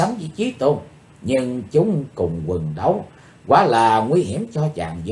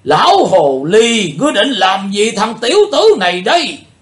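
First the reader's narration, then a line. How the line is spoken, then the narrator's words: Old man's loud roar. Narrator (Vietnamese): Lão tà gầm to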